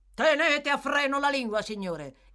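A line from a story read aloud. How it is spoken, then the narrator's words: Peremptory command. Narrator (Italian): intimò il signor Fang in tono perentorio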